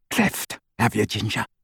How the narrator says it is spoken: said Scabbior

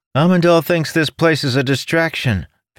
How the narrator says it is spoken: Felenia shouted

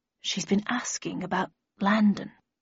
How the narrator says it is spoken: added in a quieter voice

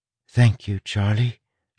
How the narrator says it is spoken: she whispered

